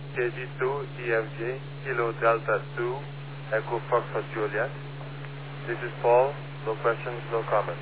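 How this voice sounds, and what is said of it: French accent. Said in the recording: “I detect a French accent”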